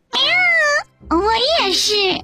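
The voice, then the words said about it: Quiet mumbling cat voice. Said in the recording (Chinese): “小声咕哝道”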